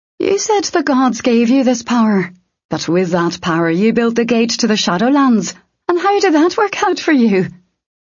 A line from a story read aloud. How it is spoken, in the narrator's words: She laughed